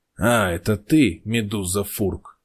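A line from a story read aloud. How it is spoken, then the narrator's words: Through gritted teeth, restrained. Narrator (Russian): сквозь зубы произнес глава, пытаясь сохранить выдержку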